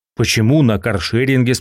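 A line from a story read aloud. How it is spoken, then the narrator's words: Plain. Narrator (Russian): спросил я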